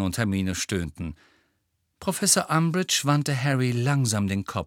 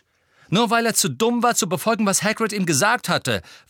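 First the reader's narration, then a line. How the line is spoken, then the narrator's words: Angry interjection. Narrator (German): warf Harry zornig ein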